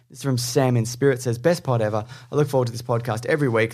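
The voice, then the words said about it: Australian accent. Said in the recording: “these dudes sound Australian.”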